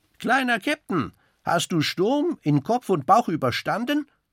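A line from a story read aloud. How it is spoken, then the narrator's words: Calling out. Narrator (German): ruft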